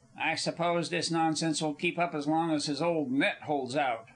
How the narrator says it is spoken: Charlie grumbled with intention in the hearing of several of the Greeks

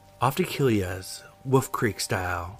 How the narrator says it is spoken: said

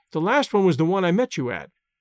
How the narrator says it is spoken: answered the girl, in an alert, confident voice

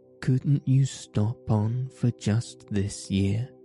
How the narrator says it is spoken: suggested the water rat wistfully

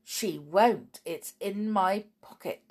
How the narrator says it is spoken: said Snarl with a grin

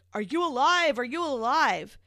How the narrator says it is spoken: hear him shouting

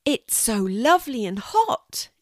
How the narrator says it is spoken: exclaimed Louie, smiling happily

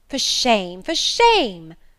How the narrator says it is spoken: cried the lady's maid

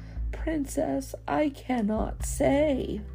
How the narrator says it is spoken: The little boy hid his face and tearfully mumbled

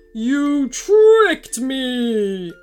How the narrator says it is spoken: wailed the evil doer

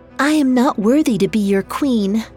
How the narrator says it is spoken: she said

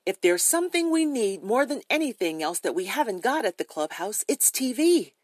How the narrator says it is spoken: Eagerly, Henny said

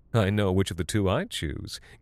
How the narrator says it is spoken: giggled the town's women in hushed conversation

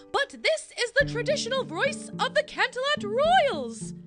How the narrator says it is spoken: booms Princess Luna

